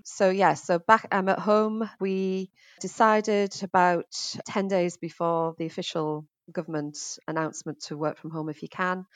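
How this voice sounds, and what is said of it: Northeast English accent. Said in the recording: “as you can probably tell from my accents, I'm originally from the northeast of England, Middlesbrough.”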